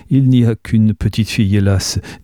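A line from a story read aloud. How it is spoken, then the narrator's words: Laughing. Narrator (French): dit Anne en riant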